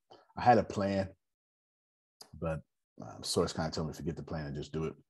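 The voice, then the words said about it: Raspy voice. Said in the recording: “my voice is too raspy.”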